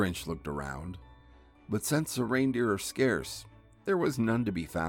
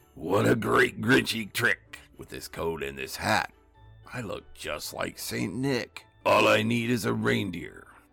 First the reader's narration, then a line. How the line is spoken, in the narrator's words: he chuckled and clucked